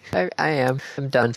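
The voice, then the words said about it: Sad, dejected tone. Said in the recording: “You sound so sad”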